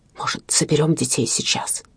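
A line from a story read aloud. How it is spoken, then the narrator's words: Close whisper in ear. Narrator (Russian): Приблизив губы к ее уху, он шепнул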